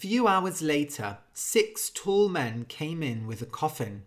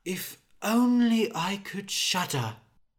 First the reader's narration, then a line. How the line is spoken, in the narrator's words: Anders sat sadly on his chair and said